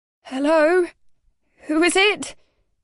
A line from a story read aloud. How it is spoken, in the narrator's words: My voice came out not sharp and authoritative as I had intended, but quavering and squeaky with fear